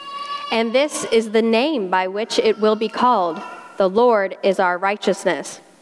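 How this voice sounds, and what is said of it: South Carolina accent. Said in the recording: “my South Carolina accent”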